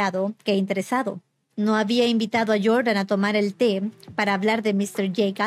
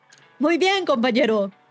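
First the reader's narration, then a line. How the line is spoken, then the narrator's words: Shouting. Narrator (Spanish): gritó Gatsby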